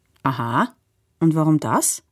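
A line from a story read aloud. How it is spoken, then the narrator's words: Plain question. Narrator (German): fragt Onkel Leo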